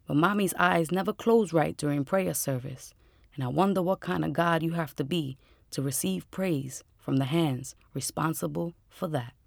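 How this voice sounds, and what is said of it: New York Puerto Rican accent. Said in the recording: “that is a New York Puerto Rican accent... boy, do I know that voice... she has energy to burn.”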